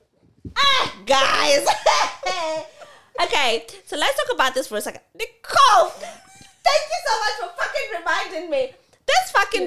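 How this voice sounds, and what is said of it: Shouting loudly. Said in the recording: “Shouting, ... You're shouting.”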